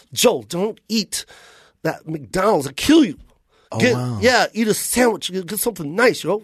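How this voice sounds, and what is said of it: Impression of JB. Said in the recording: “That's a good impersonation.”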